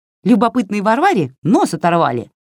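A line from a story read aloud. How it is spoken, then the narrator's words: Snapping retort. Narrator (Russian): огрызнулась Васька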